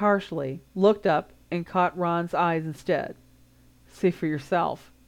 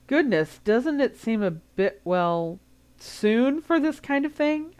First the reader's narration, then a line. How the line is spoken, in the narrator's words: Hermione said hesitantly